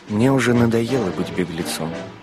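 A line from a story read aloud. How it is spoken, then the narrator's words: Plain. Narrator (Russian): сказал священник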